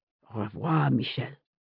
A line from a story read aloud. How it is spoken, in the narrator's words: he said under his breath